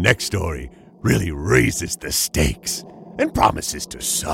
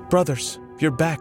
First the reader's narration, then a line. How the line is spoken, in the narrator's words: cried out in joy